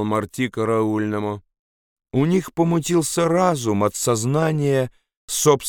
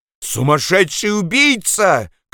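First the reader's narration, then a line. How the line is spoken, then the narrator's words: Shouting. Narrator (Russian): кричал Гомес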